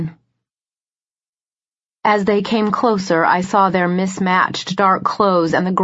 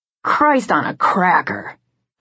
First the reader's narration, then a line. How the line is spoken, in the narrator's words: the one closest to me muttered